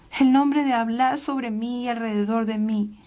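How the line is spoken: Exclaimed. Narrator (Spanish): Tofa exclamó

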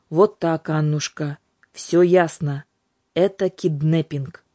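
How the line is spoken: Gloomy announcement. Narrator (Russian): Юлька мрачно объявила

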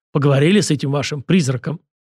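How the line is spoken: Deep bass servant. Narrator (Russian): Слуга пробасил

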